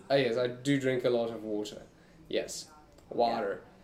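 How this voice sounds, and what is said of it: Mock American accent. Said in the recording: “made fun of the American accent”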